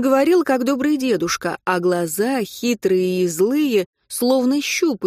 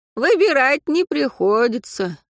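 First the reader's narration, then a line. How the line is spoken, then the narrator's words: Sighing. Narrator (Russian): вздохнул Боровичок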